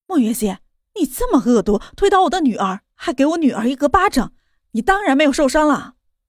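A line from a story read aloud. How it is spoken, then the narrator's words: Angry roar. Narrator (Chinese): 汪兰吼道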